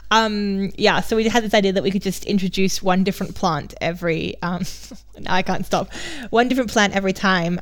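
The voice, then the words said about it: Mixed Australian-international English accent. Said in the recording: “My accent is now very messed up from being too long in Germany and speaking some sort of weird mixture of all the Englishes ... I'm originally Australian”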